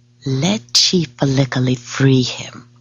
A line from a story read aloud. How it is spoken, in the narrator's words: whispers the very large and very fat woman